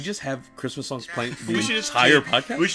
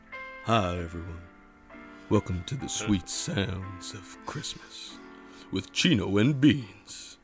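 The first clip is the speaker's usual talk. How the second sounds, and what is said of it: Radio DJ voice. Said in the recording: “Radio voice?”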